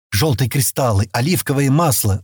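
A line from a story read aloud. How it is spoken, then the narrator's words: Whispered. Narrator (Russian): шептал Аскот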